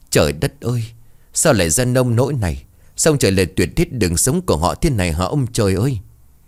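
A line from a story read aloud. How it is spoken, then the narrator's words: Old woman weeping. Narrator (Vietnamese): Cơ bà khóc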